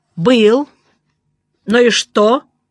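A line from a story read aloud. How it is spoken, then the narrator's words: Angry speech. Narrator (Russian): Он зло посмотрел на меня и сказал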